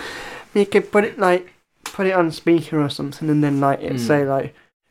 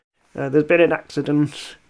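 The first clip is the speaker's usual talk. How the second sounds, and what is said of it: Silly put-on voice. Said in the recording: “putting on a silly voice”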